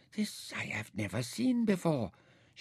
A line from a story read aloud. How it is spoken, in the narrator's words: she whispered